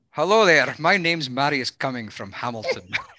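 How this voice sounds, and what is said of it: Put-on accent. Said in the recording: “We need the accent now.”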